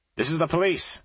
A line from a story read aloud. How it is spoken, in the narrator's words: I called out